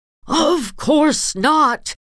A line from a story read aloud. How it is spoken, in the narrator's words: she shouted, face white with rage